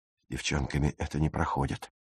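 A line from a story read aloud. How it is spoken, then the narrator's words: Grumbled. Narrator (Russian): буркнул Пауль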